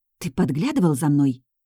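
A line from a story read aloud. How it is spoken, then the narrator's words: Whispered yell. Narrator (Russian): шепотом заорала я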